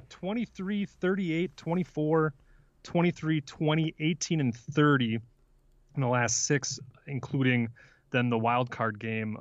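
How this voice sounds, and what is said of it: Milwaukee, Wisconsin accent. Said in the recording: “I don't know why I pronounce six like that ... It's that Milwaukee, Wisconsin accent coming up.”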